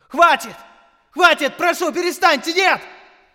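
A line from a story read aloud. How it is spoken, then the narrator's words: Shouting. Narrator (Russian): Я кричал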